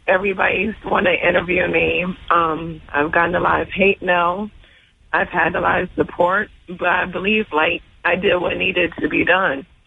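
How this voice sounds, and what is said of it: Hoarse, fading voice. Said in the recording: “As you can hear, like, my voice is leaving.”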